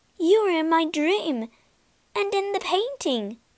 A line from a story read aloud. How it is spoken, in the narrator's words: cried Beauty